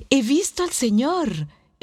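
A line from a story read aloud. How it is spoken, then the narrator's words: Exclaiming. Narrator (Spanish): exclamaba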